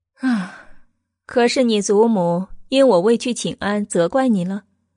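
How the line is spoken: Knowing sigh. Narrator (Chinese): 他了然叹道

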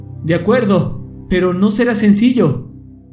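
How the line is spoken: Shouting. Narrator (Spanish): gritó Brian

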